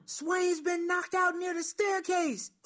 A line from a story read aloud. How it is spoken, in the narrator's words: yelling